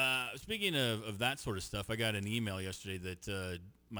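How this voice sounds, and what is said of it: Usual voice. Nothing is said of it.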